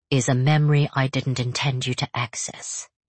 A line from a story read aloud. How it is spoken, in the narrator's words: he answers, his voice still eerily detached